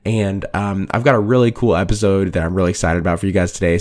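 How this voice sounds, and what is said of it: Raspy, hoarse, nearly lost voice. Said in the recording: “my voice is absolutely gone from teaching this week... my raspy, horsey voice... my voice is pretty gone”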